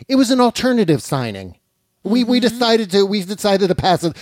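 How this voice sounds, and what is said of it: Poor imitation of another person's voice. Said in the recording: “This is my Kellyanne Conway voice ... It's not a good imitation. ... I'm not even trying. It's a terrible imitation”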